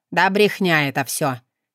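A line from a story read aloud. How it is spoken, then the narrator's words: Barked, father. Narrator (Russian): рявкнул отец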